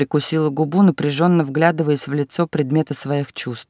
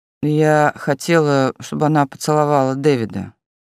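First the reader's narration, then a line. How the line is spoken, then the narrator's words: Displeased grumble. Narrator (Russian): недовольно пробурчала рыжая Мелисса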